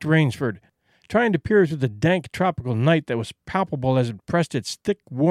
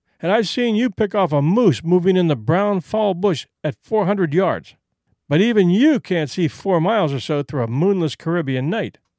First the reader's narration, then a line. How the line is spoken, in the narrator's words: said Whitney with a laugh